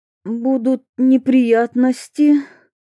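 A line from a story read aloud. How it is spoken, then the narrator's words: Low muffled mutter. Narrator (Russian): глухо пробормотала Ольга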